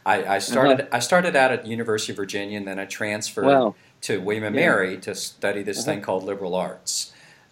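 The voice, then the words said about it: Virginia Tidewater twang. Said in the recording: “my Tidewater twang, I'm a Virginian”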